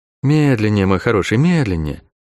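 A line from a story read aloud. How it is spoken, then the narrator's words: Gentle request. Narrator (Russian): ласково попросила указывающая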